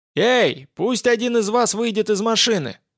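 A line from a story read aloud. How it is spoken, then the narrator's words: Shouting from above. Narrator (Russian): заорали сверху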